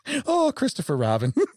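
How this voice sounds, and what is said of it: Bad Winnie the Pooh character voice. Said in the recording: “I do a really bad impression. ... I only do one voice good.”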